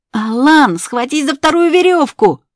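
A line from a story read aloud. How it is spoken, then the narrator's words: Shouted. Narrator (Russian): кричал Болтун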